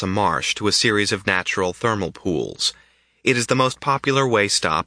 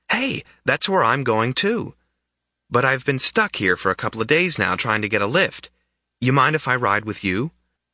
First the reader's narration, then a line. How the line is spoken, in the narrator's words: the boy exclaimed